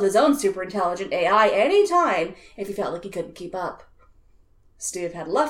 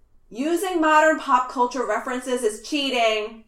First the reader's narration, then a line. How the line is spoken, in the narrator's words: Steve yelled